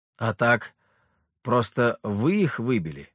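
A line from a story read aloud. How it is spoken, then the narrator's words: Plain. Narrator (Russian): ответил я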